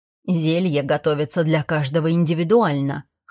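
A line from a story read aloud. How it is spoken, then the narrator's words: Snorting. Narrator (Russian): хмыкнул Фрост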